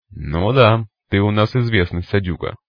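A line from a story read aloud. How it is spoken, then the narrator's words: Snorting. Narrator (Russian): вновь хмыкнул Сикач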